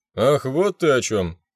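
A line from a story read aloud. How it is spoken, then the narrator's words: Sudden laughter. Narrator (Russian): неожиданно расхохотался мэр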